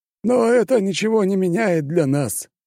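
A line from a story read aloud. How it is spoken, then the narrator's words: Thoughtful remark. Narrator (Russian): задумчиво прокомментировал бургомистр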